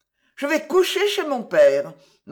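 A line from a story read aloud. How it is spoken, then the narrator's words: Cold announcement. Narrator (French): m'a-t-elle annoncé froidement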